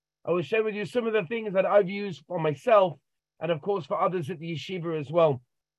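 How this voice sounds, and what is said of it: London English accent. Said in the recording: “My accent gives it away. I can't really hide ... I come from London, England”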